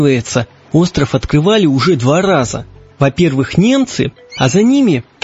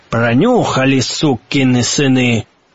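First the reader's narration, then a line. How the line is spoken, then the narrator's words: Grumbling in English. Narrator (Russian): проворчал лорд по-английски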